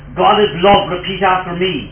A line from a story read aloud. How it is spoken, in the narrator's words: the priest shouted